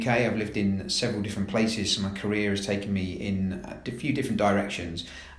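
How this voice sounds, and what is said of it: London English accent. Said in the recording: “As you can probably tell from my accent, I'm not from Scotland, I'm from London”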